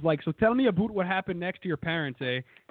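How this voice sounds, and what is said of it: Put-on Canadian accent. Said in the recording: “The Canadian accent is so hard.”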